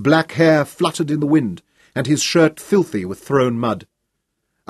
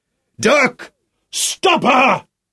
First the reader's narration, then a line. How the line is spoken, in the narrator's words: Sean roared